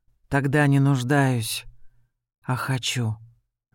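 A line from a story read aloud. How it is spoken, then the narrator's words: Soft. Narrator (Russian): мягко сказал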